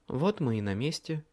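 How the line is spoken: Quiet. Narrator (Russian): негромко сообщила Леа

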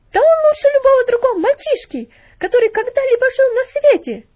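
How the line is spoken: Shouting woman. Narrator (Russian): закричала она

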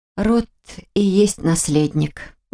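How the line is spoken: Breathy exhale. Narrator (Russian): выдохнула я

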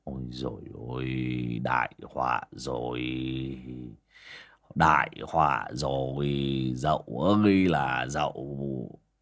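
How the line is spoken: Dazed, stunned muttering. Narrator (Vietnamese): bác Vó đờ đẫn cả người mà lẩm bẩm

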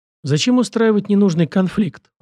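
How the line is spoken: Smiling. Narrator (Russian): улыбнулся я

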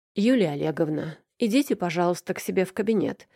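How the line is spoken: Cold. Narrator (Russian): холодно произнес босс

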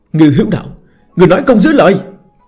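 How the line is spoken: Roaring. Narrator (Vietnamese): Một người gầm thét

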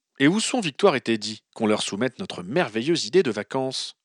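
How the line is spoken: Plain. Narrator (French): demanda Ron

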